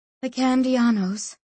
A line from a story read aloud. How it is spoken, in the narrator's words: sighed Berenice